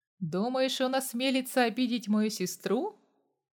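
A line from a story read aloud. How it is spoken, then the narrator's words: Chuckling laugh. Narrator (Russian): хохотнул Костя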